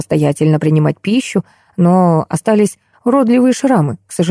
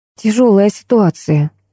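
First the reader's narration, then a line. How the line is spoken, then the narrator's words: Sighing. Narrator (Russian): вздохнула я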